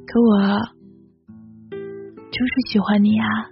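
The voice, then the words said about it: Very low, soft voice. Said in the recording (Chinese): “用很低很低的声音说”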